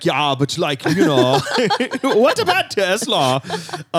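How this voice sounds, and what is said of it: Deliberately bad, Swedish-sounding impression. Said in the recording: “why is he Swedish? ... you can just do any accent for Elon Musk. Nobody could do a good Elon Musk. You can only do a bad one.”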